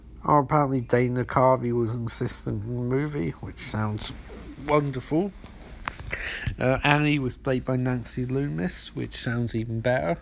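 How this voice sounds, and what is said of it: Very hoarse voice. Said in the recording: “my voice hurts ... My voice is fucked. Actually fucked. I feel very hoarse ... my voice is really hoarse ... your voice go very, very hoarse”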